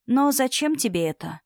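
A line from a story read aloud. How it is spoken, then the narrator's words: Quiet question. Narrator (Russian): тихо спросила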